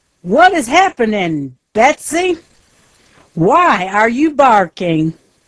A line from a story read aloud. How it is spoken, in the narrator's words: Nervy shouts